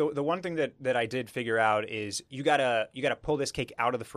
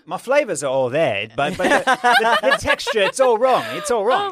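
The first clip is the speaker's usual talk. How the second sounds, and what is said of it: Imitates another person's accent. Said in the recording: “that accent is great. I hear him saying that in my brain.”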